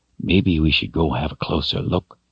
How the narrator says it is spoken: he whispered, half to himself

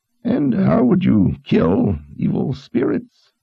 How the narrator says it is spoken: Zed asked in a thin voice that cut through the drumming of the rain

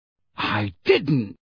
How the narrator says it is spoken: Harry said sharply

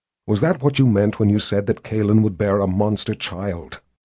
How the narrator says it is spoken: Richard asked a little more quietly, but with no less menace

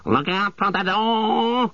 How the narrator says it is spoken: bellowed the captain

